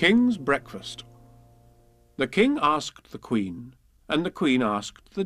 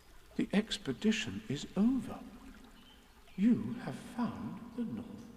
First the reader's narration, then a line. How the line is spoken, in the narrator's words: said Christopher Robin solemnly